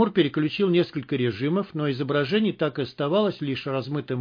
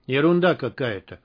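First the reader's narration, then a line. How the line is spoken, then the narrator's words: Gloomy. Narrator (Russian): мрачно сказал Рымжанов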